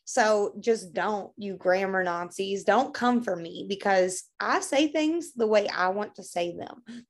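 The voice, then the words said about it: Kentucky Southern accent. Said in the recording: “I'm from Kentucky ... the way down home says them ... your accent ... she's from Kentucky”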